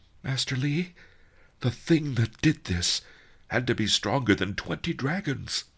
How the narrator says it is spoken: I whispered

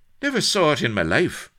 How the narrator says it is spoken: cried Blood instinctively

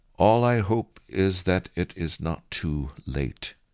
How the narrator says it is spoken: Churchill said

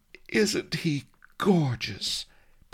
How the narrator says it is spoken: breathed the princess, starry-eyed

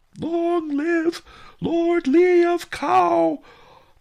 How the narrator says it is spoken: the mobs howled

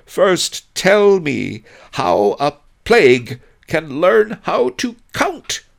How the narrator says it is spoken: he cried out in despair

